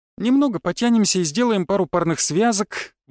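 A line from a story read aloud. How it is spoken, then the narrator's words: Answered briskly. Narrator (Russian): бодро ответила Снежинка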